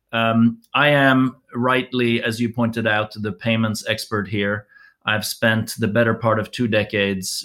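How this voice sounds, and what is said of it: American accent. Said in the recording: “Despite my American accent”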